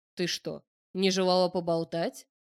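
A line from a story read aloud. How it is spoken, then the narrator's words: Meaningful smirking snort. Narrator (Russian): Красноречиво хмыкнул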